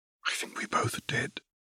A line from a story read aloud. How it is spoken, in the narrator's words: Caitlin said quietly